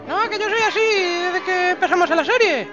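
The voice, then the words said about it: Exaggerated effeminate put-on voice. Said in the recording (Spanish): “poner la voz de maricona”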